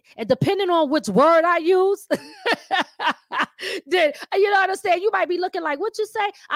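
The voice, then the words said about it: Mixed Philadelphia and New York accent. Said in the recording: “I might have a New York talking accent, but I still might bring certain words that's from Philly out. So I got a mixture of a Philly accent and a New York accent.”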